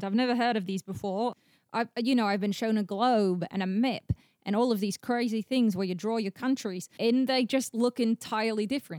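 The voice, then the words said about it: Australian or New Zealand-sounding accent. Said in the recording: “are you from Australia? New Zealand? I'm sensing an accent.”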